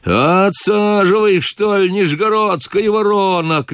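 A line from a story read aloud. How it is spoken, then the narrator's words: Coachman shouting. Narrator (Russian): кричал чужой кучер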